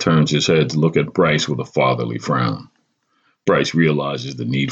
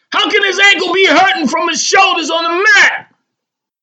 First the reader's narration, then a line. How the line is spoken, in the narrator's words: Bryce, unable to restrain, blurts out